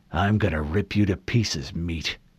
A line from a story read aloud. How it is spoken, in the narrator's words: he grunted through clenched teeth